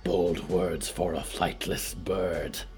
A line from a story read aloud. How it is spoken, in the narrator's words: Yuretzi hissed